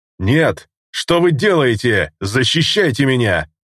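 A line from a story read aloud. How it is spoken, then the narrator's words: Merchant shouting. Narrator (Russian): кричал купец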